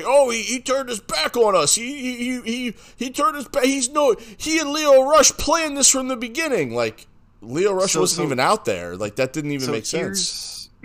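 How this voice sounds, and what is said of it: Imitates another person's voice. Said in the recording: “I thought, was Taz on our podcast? ... That wasn't that good of an impression.”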